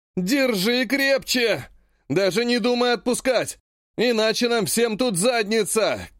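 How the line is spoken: Shouting. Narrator (Russian): кричал Омут

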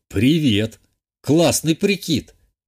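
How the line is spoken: Amused snort. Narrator (Russian): Хмыкнул я

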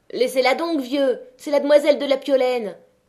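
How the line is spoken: Shouting. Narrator (French): cria la Maheude au grand-père

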